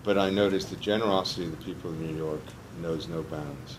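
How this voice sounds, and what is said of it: Texas accent. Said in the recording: “I was with my Texas accent, you know that I'm not from New York.”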